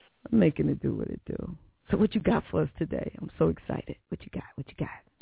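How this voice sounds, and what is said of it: Slightly hoarse voice. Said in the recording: “Sound like I'm getting a little hoarse in the voice”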